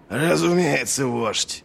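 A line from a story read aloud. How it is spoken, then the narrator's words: Growl. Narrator (Russian): прорычал Доу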